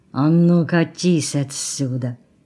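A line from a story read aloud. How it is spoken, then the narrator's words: Quiet menacing through teeth. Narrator (Russian): сквозь зубы тихо, но угрожающе выдавил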